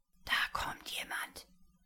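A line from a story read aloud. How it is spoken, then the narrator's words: Whispering. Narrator (German): flüsterte Lukas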